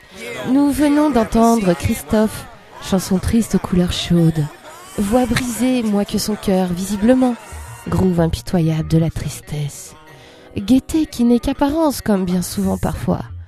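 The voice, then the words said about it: Imitates a female radio host. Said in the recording (French): “une petite imitation de Radio Nova ... d'une animatrice de Radio Nova”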